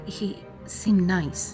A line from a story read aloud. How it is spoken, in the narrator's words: I stammered